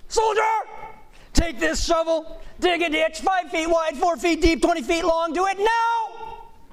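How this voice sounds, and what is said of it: Weak drill sergeant barking orders. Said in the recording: “I don't do a very good drill sergeant impression, so ratchet the volume up a few, a few uh, hundred decibels and make it sound much meaner than I can do it”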